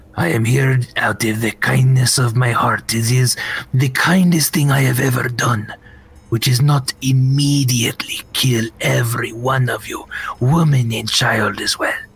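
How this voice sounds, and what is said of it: Villainous character voice. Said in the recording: “You sound like a bad guy, dude.”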